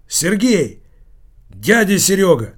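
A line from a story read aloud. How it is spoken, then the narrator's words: Exclaiming. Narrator (Russian): воскликнул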